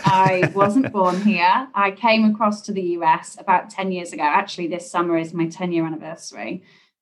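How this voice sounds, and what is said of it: English accent. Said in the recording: “my English accent obviously gives me away”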